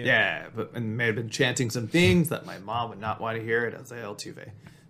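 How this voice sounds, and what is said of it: Hoarse, worn-out voice. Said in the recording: “my voice is a little shot because I was booing a lot”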